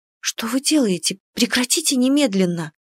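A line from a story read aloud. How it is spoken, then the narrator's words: Embarrassed whisper. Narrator (Russian): прошептала я, краснея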